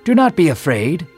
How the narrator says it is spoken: Gabriel exclaimed

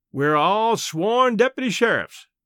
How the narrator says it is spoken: called the caretaker smoothly

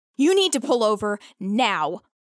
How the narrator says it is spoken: once Rio's heart starts beating at a normal speed again, she yells

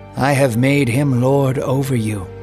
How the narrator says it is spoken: Isaac said

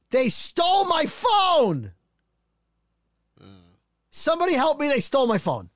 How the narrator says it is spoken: she's yelling

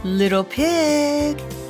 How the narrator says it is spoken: he called sweetly

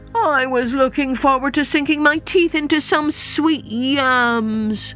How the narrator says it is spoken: moaned Hyena, his mouth watering as he spoke

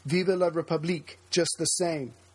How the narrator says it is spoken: one conservative senator, who had voted no, cried

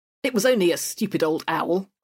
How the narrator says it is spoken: I said crossly

